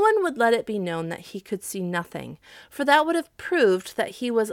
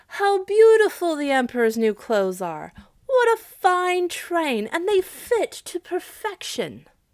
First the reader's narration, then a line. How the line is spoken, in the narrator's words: Everybody in the streets and at the windows cried out